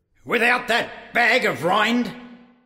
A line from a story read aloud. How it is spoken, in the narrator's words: yelled Blue